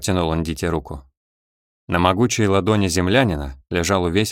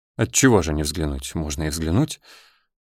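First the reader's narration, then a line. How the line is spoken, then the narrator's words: Mumbling. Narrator (Russian): забормотал Паршин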